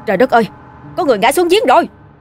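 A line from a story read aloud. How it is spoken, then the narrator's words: Panicked shout, old man. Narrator (Vietnamese): Quá hoảng hốt, ông la lên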